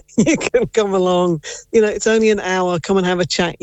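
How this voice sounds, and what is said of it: English accent. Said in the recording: “Based off your accent, I wonder where you may be born in England.”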